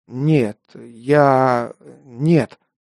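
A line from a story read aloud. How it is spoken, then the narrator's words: Strained, forced out. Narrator (Russian): только и сумел выдавить я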